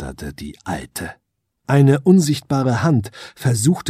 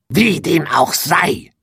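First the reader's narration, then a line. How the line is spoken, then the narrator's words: Witch hissing. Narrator (German): fauchte die Hexe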